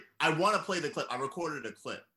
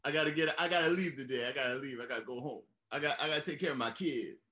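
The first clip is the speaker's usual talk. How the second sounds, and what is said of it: Impression of John Travolta's strange accent. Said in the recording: “Travolta ... He's doing his very strange Black accent ... We're gonna harp on this accent endlessly”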